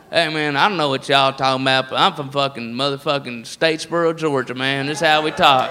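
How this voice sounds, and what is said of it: Put-on redneck Southern accent. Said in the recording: “the redneck voice is all over the place”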